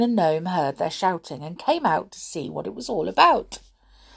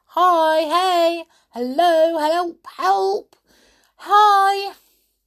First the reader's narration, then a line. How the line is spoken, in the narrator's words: So they shouted